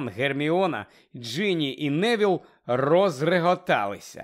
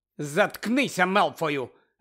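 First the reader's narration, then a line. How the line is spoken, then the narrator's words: Sharp interjection. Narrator (Ukrainian): різко втрутилася Герміона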